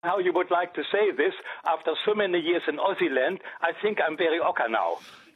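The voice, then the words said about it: German accent speaking English. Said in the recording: “I just know the accent. I just because I grew up with a lot of German people, so I know.”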